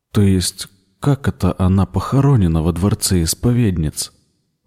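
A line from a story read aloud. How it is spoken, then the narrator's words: Trembling voice, asking again. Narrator (Russian): Дрожащим голосом переспросил он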